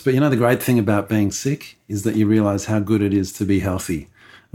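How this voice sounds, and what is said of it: Sick-sounding voice from a cold. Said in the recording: “I'm suffering from the man flu, so I apologize for my voice.”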